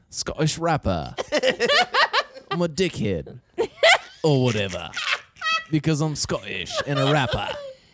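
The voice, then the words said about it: Put-on Scottish accent, sounds Australian-British. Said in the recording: “your Scottish accent is just, ... an Australian ... British person.”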